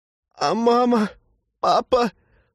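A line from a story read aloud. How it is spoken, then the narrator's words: Frightened sob. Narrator (Russian): всхлипнул Глеб, затравленно озираясь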